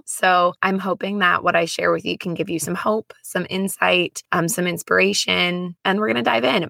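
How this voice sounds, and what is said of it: Raspy, hoarse voice. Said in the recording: “My voice, if you haven't already noticed, is a little raspy. I call it my sexy voice ... trying to get it to a point where it sounded a little bit less raspy”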